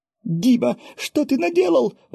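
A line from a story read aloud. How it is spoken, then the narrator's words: Wife exclaiming. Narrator (Russian): воскликнула супруга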